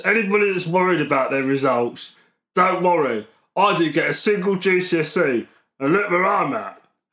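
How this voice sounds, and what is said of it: Imitates another person's voice. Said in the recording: “every bit that I do of you... Working on that impression.”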